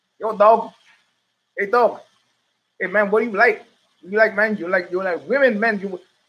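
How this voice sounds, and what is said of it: Put-on Vietnamese accent, poorly done. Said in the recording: “that's a very bad imitation of my Vietnamese driver”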